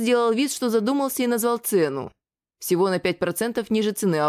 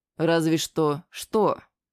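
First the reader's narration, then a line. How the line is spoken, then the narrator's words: Calm. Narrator (Russian): отреагировал я спокойно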